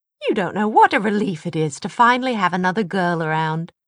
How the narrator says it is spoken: said cheerfully

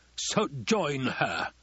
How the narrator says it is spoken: the Baron spat

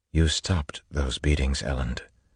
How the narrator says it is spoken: Vin said softly

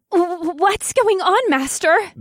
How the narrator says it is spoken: Beatrix asked in a panicked voice

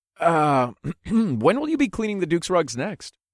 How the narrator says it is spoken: I asked in an innocent tone

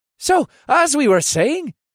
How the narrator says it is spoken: Asher continued the conversation in a cheerful voice

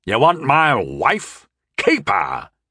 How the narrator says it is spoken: he bellowed at me angrily

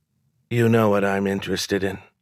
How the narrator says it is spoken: she said

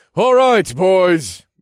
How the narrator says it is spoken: said loudly

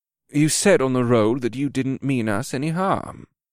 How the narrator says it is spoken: Bacolth said in a mild tone

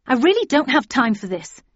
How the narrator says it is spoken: said crossly

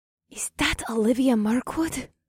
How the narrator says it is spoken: Morgana gasped as she tugged my arm in excitement

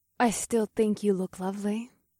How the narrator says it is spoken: Cersei purred in a dreamlike voice

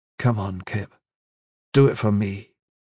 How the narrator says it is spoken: Gavin said gently

